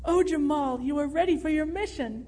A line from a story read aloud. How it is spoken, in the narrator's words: Jordan cried in ecstasy